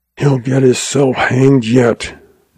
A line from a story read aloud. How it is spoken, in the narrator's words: Doby muttered disgustedly